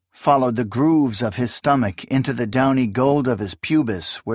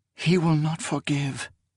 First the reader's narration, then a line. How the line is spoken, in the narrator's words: she whispered